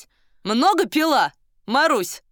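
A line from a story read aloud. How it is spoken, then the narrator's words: Question in Russian. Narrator (Russian): спросил один по-русски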